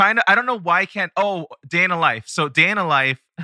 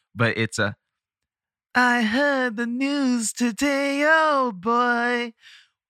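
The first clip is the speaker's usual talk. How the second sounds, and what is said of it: Imitates another person's voice, spot on. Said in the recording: “best John Lennon impersonation I have ever heard. That was spot on.”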